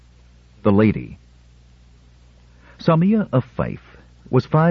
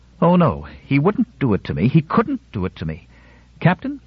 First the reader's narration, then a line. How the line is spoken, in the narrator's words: Her voice was sharp and carried the weight of authority